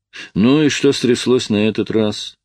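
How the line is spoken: Lazily asked. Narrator (Russian): лениво осведомился

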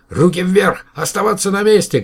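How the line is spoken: Shouted. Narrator (Russian): крикнул один

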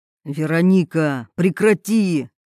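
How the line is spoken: Stern. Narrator (Russian): строго сказал Роберт

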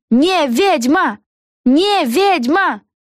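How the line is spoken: Witches shouting together. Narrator (Russian): кричали ведьмы

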